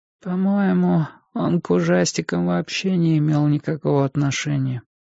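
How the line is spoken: Weak, irritating little voice. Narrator (Russian): продолжал Энди своим слабым, раздражающим голоском

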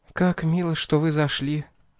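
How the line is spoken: Quiet. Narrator (Russian): тихо сказала она

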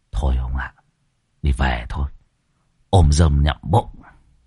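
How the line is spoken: Whisper. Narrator (Vietnamese): Ông Pha thì thầm

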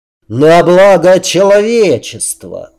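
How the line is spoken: Roar. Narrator (Russian): взревел Грейсон

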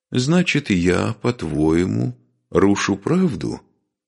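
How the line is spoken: Calm question. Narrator (Russian): спокойно спросил великий князь

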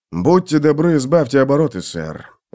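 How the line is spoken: Sighing. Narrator (Russian): вздохнул сержант

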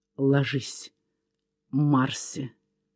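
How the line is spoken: Muffled whisper. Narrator (Russian): глухо прошептал он

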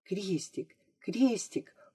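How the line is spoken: Unknown whisper. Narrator (Russian): услышала она чей-то шепот

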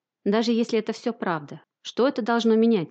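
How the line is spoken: Plain, sergeant. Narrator (Russian): спросил сержант Кларк

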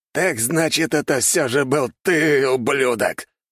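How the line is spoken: Thunderous growl. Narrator (Russian): прорычал Артега, и от его голоса дрожь пробежала по земле

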